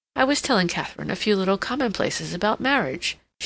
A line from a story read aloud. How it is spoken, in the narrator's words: she said with a little laugh